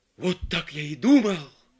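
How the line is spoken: Exclaiming. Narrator (Russian): воскликнул Филипп Филиппович

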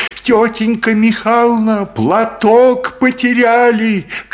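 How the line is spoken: Girl shouting. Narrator (Russian): кричала девочка

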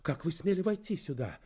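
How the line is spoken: Indignant exclamation. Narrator (Russian): воскликнула она с возмущением

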